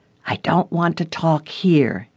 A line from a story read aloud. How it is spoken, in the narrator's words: whispered